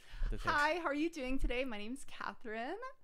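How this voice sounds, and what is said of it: Cheerful customer service voice. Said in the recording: “customer service voice ... Wow, that's good.”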